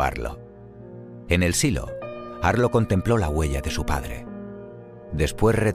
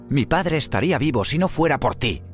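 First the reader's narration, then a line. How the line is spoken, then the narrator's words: Shouting. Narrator (Spanish): gritó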